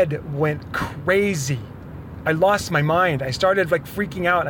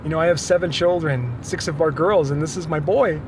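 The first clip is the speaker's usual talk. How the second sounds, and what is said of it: Emotional, choked-up speech. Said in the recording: “I'm getting emotional thinking about right now.”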